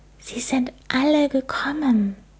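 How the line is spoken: Amazed whisper. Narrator (German): Sie flüsterte staunend

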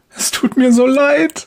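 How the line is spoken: Sobbing woman. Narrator (German): schluchzt die Frau

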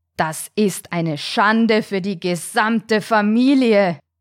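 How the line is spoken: Thundering great shark. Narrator (German): donnerte der große weiße Hai

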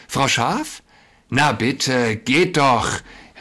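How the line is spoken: Wolf calling out. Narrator (German): rief da der Wolf

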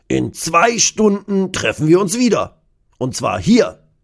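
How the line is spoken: Calling out. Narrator (German): ruft Kurt

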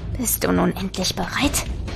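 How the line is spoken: Corpse hissing. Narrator (German): zischte der Leichnam

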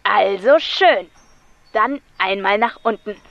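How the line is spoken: Crackling loudspeaker voice. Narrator (German): krächzte es aus der Anlage

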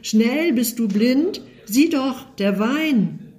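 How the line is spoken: Boy's alarmed cry. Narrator (German): Der Junge ... schreit auf

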